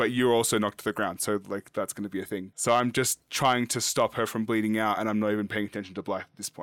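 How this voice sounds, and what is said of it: Usual voice. Nothing is said of it.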